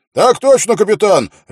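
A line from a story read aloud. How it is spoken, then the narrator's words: Barking shout. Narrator (Russian): рявкнул Квин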